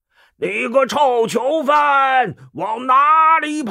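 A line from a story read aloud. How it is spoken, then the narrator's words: Shout from behind. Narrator (Chinese): 忽听背后有人叫道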